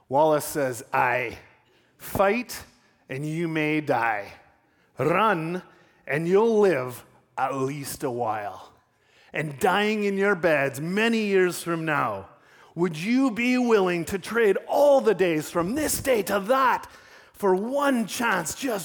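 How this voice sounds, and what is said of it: Attempted Scottish accent. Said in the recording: “I can't do it without attempting a Scottish accent”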